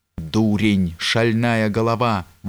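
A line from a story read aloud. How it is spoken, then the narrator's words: Old man's exclamation. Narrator (Russian): воскликнул старый князь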